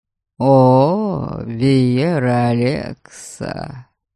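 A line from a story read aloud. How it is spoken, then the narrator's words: Calm drawl. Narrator (Russian): Спокойно протянул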